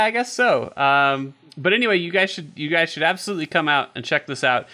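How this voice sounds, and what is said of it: Usual voice. Nothing is said of it.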